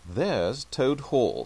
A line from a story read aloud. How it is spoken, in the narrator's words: said the rat